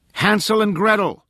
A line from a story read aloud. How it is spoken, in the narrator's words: Nora shouted